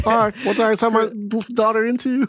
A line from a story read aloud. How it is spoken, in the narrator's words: Chris sobs as she hears this coming from her daughter